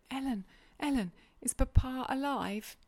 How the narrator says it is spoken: My own sweet little mistress sprang on my neck, sobbing

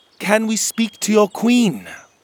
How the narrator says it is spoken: said

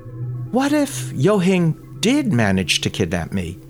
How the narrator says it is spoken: Yut Ho asked dreamily

